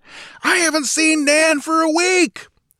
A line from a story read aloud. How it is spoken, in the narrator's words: bellowed in reply